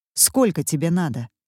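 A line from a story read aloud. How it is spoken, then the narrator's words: Dry laugh. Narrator (Russian): Мадлен сухо смеется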